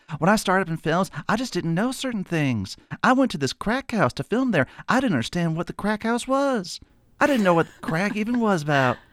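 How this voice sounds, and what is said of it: Breezy South Texas accent. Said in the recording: “she's from South Texas. So she has this very breezy South Texas accent. ... I have some cousins that sound like that in Texas.”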